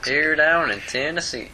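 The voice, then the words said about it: Imitated American Southern accent. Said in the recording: “I do like the Southern accent ... That's close enough”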